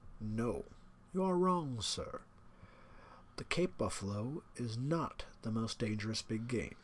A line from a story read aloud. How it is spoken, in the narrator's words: He was smiling, his curious, red-lipped smile, and then he said slowly